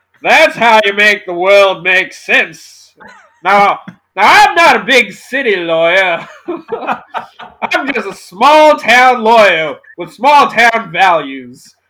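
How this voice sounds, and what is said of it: Southern lawyer character voice. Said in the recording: “I can do like a Southern lawyer.”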